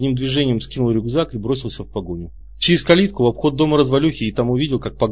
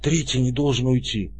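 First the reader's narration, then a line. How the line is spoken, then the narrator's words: Curt hoarse remark. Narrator (Russian): Комар коротко бросил хриплым голосом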